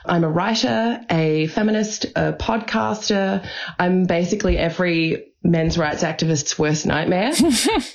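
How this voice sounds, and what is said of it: Australian accent. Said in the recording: “you'll obviously be able to tell I have an Australian accent.”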